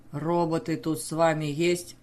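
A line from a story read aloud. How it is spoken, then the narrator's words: Husky rough human voice. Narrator (Russian): спросил один хрипловатым и грубым, типично человеческим голосом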